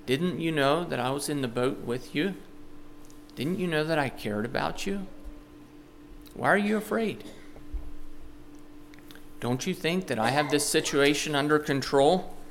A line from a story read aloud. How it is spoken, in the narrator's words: Jesus kindly asking them